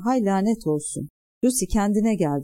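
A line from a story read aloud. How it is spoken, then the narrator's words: Crying out. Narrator (Turkish): diye haykırdı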